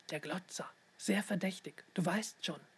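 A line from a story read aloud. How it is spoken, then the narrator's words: Whispered. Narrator (German): flüsterte Leon seiner Schwester zu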